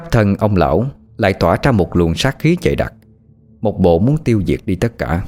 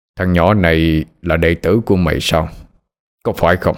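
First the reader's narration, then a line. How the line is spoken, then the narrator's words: Harsh old man's voice. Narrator (Vietnamese): Ông già gằn giọng mà nói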